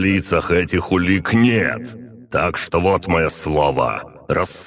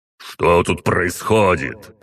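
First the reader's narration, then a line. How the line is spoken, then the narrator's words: Barked. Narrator (Russian): рявкнул он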